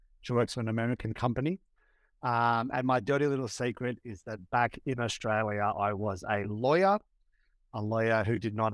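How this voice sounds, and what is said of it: Australian accent. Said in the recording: “obviously from the accent, I'm from Australia, from Sydney, Australia”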